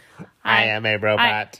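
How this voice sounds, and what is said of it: Robot voice. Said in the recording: “in a robot voice?”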